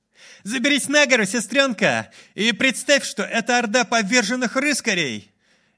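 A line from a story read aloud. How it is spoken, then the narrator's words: Shouted. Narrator (Russian): Майлз крикнул сестре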